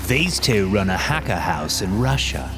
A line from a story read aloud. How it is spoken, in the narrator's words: one of the masked men says in an English accent